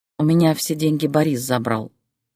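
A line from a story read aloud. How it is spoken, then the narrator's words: Quiet sigh. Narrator (Russian): тихо вздохнула Зоя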